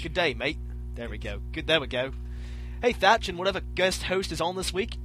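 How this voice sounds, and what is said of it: Put-on Australian accent. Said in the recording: “I get to read this with an accent ... Gotta get an Australian accent ... read it with an Australian accent”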